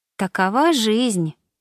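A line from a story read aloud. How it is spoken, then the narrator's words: Sighing. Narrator (Russian): вздохнула Мишель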